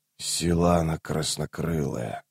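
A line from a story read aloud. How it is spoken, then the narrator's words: Muttered. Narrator (Russian): пробормотал Рейст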